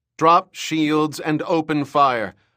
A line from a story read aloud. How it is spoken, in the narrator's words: Mirbella shouted into the comm system